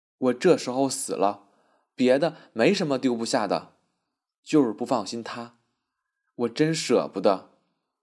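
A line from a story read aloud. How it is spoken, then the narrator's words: Choked with sorrow. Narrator (Chinese): 曼璐悲从中来，哽咽着向曼桢说道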